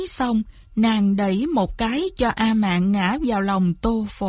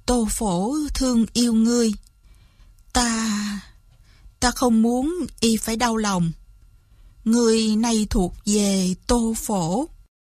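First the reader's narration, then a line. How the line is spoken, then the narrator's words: Sighing. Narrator (Vietnamese): Lý Văn Tú thở dài một tiếng, nói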